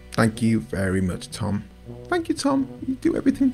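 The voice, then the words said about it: Baby-like voice. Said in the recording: “Was that a baby voice? ... It's your humble voice.”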